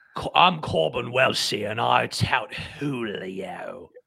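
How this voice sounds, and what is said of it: Put-on British accent. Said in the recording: “please say the word Julio in a British accent ... That was pretty good. That was pretty good.”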